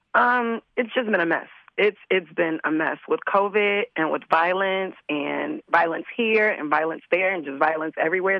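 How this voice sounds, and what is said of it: Voice sounds unwell. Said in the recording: “Excuse my voice. I'm a little under the weather.”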